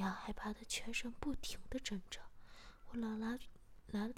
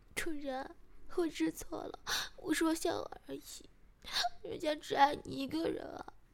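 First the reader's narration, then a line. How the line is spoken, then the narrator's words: Crying in pain. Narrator (Chinese): 石雅被人打的疼了，马上哭着说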